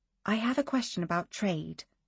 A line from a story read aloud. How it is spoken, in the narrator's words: said in a whisper